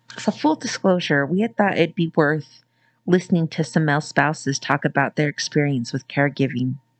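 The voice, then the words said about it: Muffled voice. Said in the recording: “my voice sounds so muffled because I'm wearing a mask”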